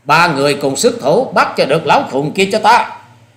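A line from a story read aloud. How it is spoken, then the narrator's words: Loud shout. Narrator (Vietnamese): Hà Xà Tiên Tử quát lớn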